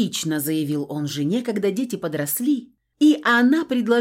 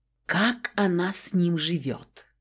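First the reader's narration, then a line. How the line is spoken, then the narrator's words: Colleagues whispering. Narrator (Russian): часто шептались ее коллеги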